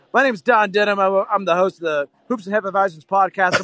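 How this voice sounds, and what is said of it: Shouting over loud bar noise. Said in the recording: “I'm a little hammered ... I'm shouting. I'm at a bar. I'm sorry for the audio quality”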